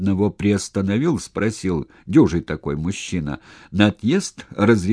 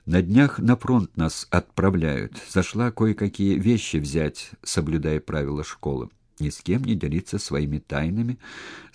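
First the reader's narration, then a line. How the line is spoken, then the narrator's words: Plain. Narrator (Russian): сказала Маша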